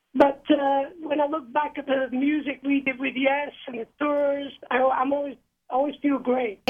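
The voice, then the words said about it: Slightly off, unwell-sounding voice. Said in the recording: “Today I've got this virus, and I'm just getting over it. So my voice is a bit wonky.”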